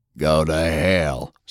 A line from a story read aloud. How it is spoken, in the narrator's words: Sullivan snarled